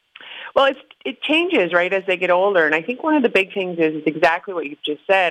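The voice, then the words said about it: Tired-sounding voice. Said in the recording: “You can even hear it in my voice. It's tired”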